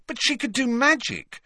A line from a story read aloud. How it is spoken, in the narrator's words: said Harry impatiently